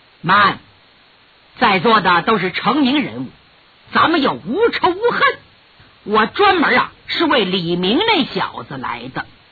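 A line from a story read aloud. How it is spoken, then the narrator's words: Cold. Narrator (Chinese): 神秘怪客却冷冷地说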